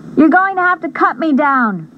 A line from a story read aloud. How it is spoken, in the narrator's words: I yelled